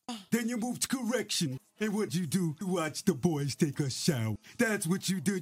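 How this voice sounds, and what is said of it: Imitates another person's voice. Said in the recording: “a clip of Envy imitating Rick Ross”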